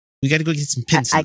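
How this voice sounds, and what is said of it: Attempted New Zealand accent. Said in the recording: “trying to get the accent, the Kiwi accent down. It's fucking hard. ... let's see how I'm fucking up.”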